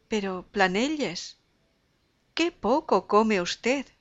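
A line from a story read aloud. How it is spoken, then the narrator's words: Exclaiming. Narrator (Spanish): Rosalvez no pudo menos de exclamar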